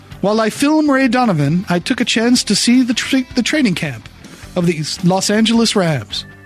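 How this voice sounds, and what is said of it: Poor impression of Liev Schreiber. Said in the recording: “terrible Liev Schreiber impression, ... It's the tone in the pacing that gets me.”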